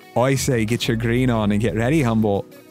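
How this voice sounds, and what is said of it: Put-on Irish accent. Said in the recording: “My best Irish impersonation there.”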